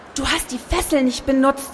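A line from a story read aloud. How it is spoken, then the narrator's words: Whisper. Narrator (German): flüsterte sie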